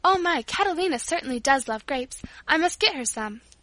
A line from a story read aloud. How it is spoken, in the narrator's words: Paula exclaimed